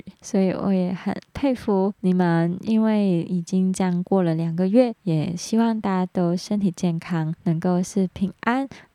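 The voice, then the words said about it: Hong Kong-accented Mandarin. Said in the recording (Chinese): “我知道我在讲“发光”这个字，一定是有点走音 ... 因为我是香港人，接纳我的口音”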